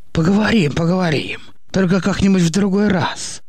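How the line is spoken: Gloomy mumbling. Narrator (Russian): мрачно бубнил Никита

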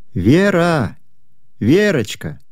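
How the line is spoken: Mother calling loudly. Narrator (Russian): громко позвала мама

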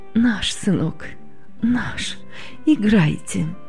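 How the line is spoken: Trembling voice. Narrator (Russian): дрогнувшим голосом ответила она

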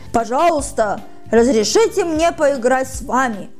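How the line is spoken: Powerful elephant voice. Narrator (Russian): обратился он к слонам мощным слоновьим голосом

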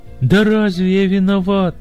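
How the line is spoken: Groaning groom. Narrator (Russian): стонал жених

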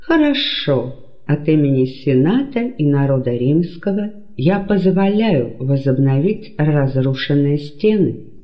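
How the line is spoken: Plain. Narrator (Russian): сказал Цезарь

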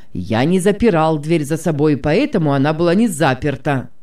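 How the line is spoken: Man repeating loudly. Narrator (Russian): громко повторил мужчина

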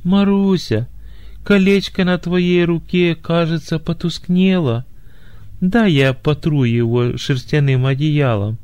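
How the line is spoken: Feigned tenderness hiding indignation. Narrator (Russian): Негодованием закипело сердце жениха, но он скрыл свое возмущение и деланно ласковым голосом сказал

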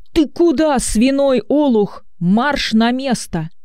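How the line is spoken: Angry shout. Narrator (Russian): Учитель закричал

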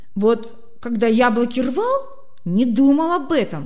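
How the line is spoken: Grumbling. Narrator (Russian): проворчал Коля

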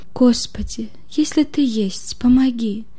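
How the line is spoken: Desperate plea. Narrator (Russian): Взмолился он в последней надежде

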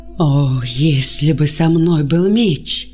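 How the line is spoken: Moaning. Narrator (Russian): простонал он

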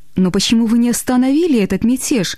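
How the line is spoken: Shocked exclamation. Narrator (Russian): воскликнула потрясенная Глэдис

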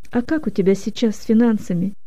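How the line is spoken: Quiet question. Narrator (Russian): тихо спросил Леня

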